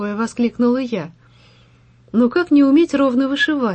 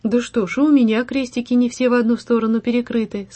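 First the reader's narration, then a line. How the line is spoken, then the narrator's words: Plain. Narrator (Russian): сказала Белова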